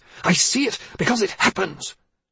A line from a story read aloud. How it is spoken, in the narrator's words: She spoke fiercely